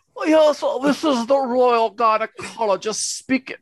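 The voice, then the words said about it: Attempted British accent, mixed accents. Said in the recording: “Let's hear your best British... That was like every accent at once.”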